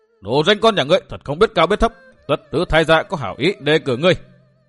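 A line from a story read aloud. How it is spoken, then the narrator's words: Old man's angry shouting. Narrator (Vietnamese): lão hét lên một tiếng, lớn tiếng chửi rủa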